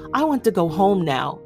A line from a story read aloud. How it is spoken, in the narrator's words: she says urgently